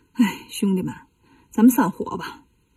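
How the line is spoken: Sighing. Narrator (Chinese): 悟空叹了口气说

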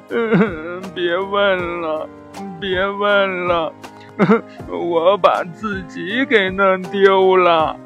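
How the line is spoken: Crying sadly. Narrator (Chinese): 小狗勾起了它的伤心事儿，一边哭一边说

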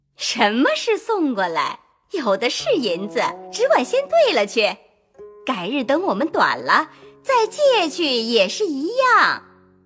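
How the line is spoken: Laughing. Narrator (Chinese): 凤姐儿笑道

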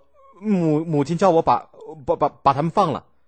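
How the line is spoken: Stammering. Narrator (Chinese): 晋襄公结结巴巴的说

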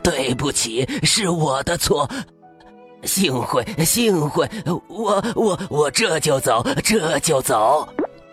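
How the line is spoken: Stammering. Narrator (Chinese): 大恶龙结结巴巴的说

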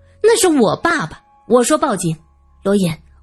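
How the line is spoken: Angry. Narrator (Chinese): 萧琴怒道

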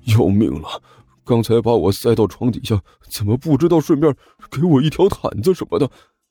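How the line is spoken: Muttering. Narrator (Chinese): 尼才一边嘀咕

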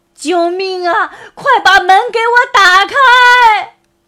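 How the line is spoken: Hoarse desperate shout. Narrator (Chinese): 于格声嘶力竭地喊着

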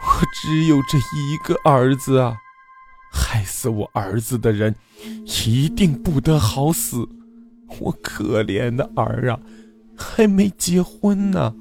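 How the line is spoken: Old woman weeping complaint. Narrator (Chinese): 那个老太太哭诉道

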